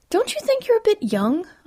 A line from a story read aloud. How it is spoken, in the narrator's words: I blurted